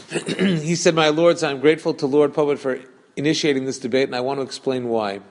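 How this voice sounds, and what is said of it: Somewhat Brooklyn accent, reading quickly. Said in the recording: “I'm going to say it in my quasi-Brooklyn accent ... I have to read it a little faster than the Queen's English style”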